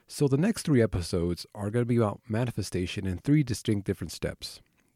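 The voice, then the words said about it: Voice sounding like a cold. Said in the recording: “I'm kind of getting over a cold a little bit, if you can't tell by my voice.”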